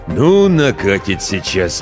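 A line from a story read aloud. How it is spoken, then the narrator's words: Grumble. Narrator (Russian): Проворчал рассказчик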